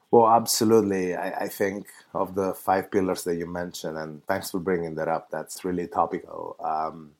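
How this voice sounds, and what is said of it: Italian accent in English. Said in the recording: “As you can hear from my accent ... I'm from that Italian part ... I actually come from Italy.”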